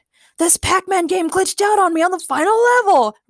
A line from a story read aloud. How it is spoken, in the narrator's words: Ray screamed